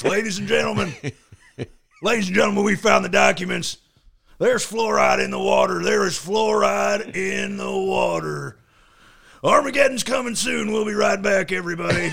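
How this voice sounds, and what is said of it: Imitates another person's voice. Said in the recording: “your Alex Jones imitation”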